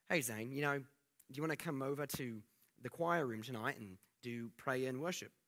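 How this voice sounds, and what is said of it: Imitated South African-Australian-like accent. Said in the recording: “Steve had a really cool accent. It was like South African, but Australian ... my best impersonation”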